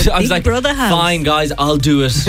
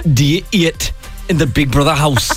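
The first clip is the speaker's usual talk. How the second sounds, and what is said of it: Geordie narrator impression. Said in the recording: “your Geordie Shore impression”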